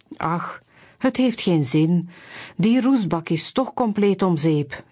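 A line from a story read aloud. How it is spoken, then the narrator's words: Sighing. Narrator (Dutch): zuchtte hij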